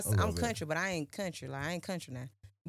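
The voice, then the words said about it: Country accent. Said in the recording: “I sound country ... you sound a little country”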